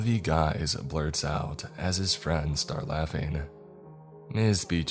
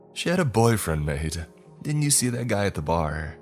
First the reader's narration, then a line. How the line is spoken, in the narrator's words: Another manages to choke out through laughter